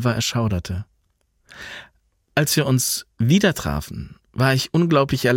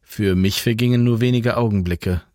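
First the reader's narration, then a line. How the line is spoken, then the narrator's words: Plain. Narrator (German): sagte Jan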